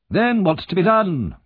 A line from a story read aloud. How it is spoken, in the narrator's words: cried the doctor impatiently